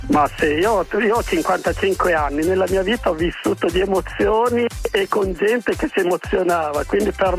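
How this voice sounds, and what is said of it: Slight regional northern Italian accent. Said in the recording (Italian): “Che riconosco un po' l'accento, ma non sono convinto. Dove sei? Di Parma, Modena, Reggio?”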